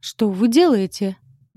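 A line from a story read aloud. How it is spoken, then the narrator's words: Man roaring. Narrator (Russian): взревел мужской голос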